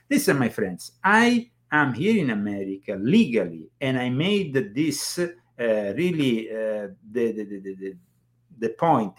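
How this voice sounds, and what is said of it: Non-American foreign accent. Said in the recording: “my accent the fact that i'm not uh, american in the strictest sense”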